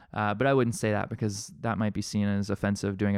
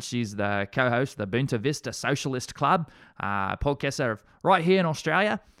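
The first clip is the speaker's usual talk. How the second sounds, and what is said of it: Bad put-on Australian accent. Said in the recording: “doing a bad Australian accent”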